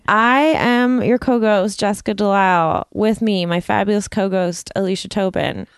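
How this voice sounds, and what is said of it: Lower, rough morning voice. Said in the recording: “my voice is lower than normal. I've got the weird morning voice.”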